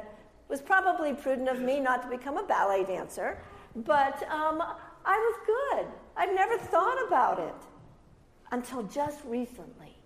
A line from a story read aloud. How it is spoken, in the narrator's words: She laughed and she said